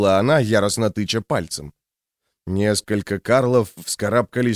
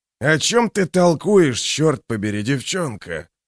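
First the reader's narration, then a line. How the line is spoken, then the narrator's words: Growl. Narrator (Russian): прорычал он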